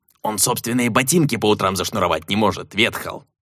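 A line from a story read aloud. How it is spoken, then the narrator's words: Grumbling. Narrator (Russian): проворчал Седобородый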